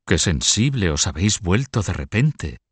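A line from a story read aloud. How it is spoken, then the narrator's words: Ironic exclamation. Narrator (Spanish): exclamó Felipe de Poitiers con ironía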